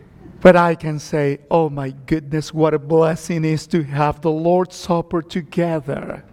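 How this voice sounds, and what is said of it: Strong foreign accent. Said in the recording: “my hard accent”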